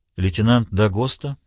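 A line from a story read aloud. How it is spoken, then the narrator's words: Calm voice. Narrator (Russian): сказала она спокойным голосом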